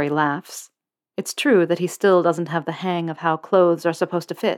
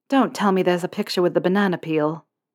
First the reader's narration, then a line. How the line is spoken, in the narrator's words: Harry groans